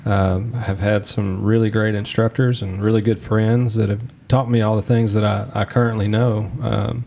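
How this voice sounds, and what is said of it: Kentucky accent. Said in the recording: “born and raised here in Kentucky, right in the middle, if you can't tell by my accent, right in the middle of South Central Kentucky”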